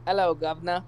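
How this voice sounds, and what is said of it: Bad put-on British accent. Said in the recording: “Here's my British accent.”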